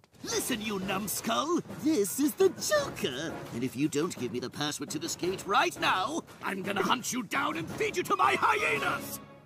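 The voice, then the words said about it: Joker cartoon villain voice impression. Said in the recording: “convince these fools I's the Joker by doing my best Mark Hamill”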